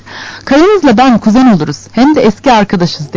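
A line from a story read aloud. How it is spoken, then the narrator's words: Plain. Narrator (Turkish): dedi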